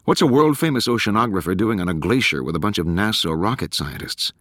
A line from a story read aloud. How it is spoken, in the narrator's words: Tallon chuckled